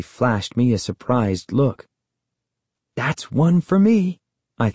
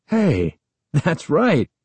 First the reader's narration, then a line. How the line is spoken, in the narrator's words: Uncle Ben exclaimed, obviously impressed